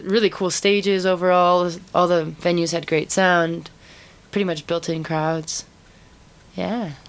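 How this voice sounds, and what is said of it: Canadian accent. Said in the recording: “originally Canadian ... You can probably hear the accent.”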